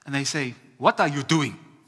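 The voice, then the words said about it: Put-on African accent. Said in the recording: “Sorry, it's an African accent. It's even I'm offended by that one.”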